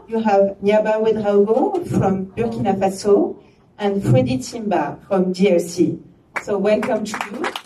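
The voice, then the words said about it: Strong French accent. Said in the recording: “it's with a very French accent that I will just tell some names.”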